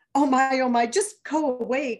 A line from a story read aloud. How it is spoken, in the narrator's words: cried Isabella's fear